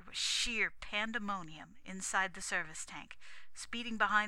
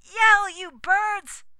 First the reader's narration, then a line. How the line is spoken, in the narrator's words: screamed the voice